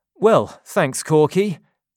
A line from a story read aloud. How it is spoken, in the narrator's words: Jonathan replied